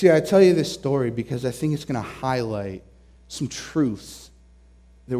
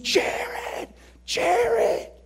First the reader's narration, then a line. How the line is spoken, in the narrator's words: they're screaming